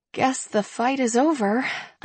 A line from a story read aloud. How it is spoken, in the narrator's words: I murmur through a smile